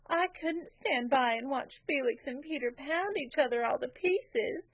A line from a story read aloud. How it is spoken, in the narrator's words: she sobbed